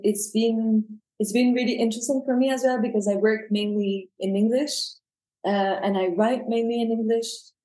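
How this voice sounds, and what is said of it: French accent in English. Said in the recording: “you can hear from my accents that my mother tongue is French ... I'm never going to get rid of the accent”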